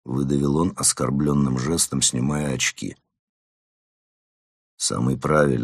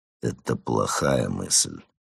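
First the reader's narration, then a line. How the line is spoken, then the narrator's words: Grumbled. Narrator (Russian): проворчал Марван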